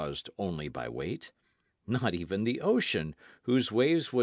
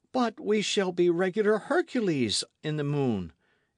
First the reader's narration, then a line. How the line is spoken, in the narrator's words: exclaimed Michel